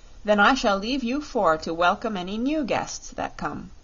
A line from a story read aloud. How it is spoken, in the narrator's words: said Dorothy